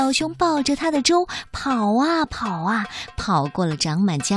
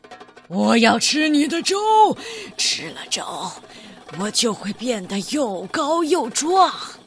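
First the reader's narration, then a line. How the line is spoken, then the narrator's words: Bear-like roaring. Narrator (Chinese): 魔鬼熊吼叫着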